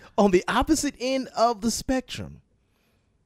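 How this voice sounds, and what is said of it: Usual voice. Nothing is said of it.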